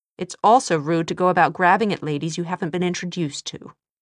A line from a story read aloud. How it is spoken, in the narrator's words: Tessa said stiffly